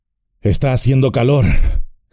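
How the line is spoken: Panted. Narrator (Spanish): jadeó

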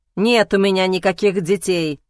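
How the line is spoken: Irritated. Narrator (Russian): сказал я раздраженно

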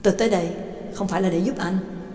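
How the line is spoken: Cold. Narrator (Vietnamese): lạnh lùng nói

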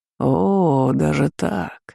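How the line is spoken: Father's short laugh. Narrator (Russian): хохотнул отец

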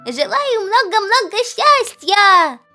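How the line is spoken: Shouting. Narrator (Russian): кричал Пух

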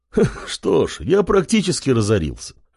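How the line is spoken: Loud laughter. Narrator (Russian): расхохотался Голь

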